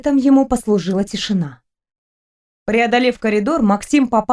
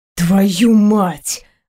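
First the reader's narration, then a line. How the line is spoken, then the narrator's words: Shocked breathless exclamation. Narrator (Russian): Выдохнул когда луч фонаря выхватил из темноты распластанную на полу женскую фигуру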